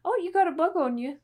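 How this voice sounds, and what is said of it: Put-on accent. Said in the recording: “That was my best attempt at that accent.”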